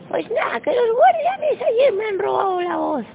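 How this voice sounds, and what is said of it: Squeaky high-pitched character voice. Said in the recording (Spanish): “la voz de pito de la emperatriz ... la emperatriz de voz de pito”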